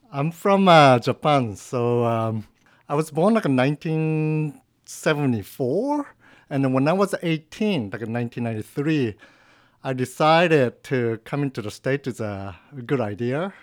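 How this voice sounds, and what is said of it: Non-American accented English. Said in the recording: “probably you can tell from my accent that I'm not American”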